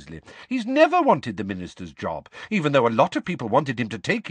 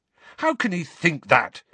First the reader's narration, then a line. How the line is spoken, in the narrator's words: said Harry angrily